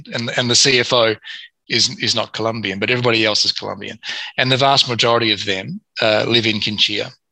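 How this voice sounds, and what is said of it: Foreign, non-Colombian accent. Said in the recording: “I'm not Colombian, obviously, as you can tell by the accent.”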